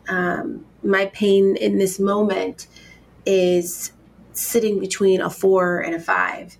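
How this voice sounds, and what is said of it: Congested voice. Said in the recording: “you can even tell in my voice. I'm congested. I'm getting over pneumonia”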